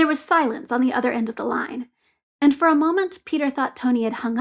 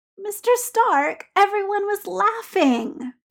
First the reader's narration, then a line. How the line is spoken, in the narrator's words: Peter said, aware that he was whining and unable to stop it